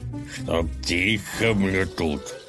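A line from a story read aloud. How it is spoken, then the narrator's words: Growl. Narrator (Russian): прорычал Колыван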